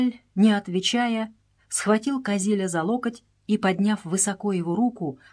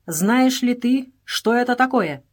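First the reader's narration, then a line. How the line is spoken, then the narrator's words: Sharp question. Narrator (Russian): резко спросил Джааль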